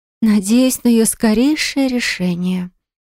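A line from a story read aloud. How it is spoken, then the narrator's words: Deadly tone. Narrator (Russian): проговорила она убийственным тоном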